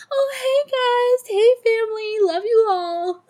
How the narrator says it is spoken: She just cheerfully smiles ... like

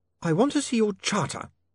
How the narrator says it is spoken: Saccharissa snapped

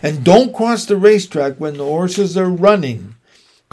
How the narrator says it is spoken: cried Mrs

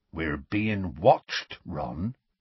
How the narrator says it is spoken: he said gruffly

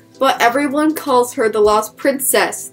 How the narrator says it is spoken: Theo exclaimed

